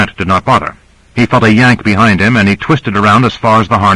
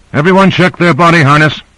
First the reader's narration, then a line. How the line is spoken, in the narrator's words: Owens called out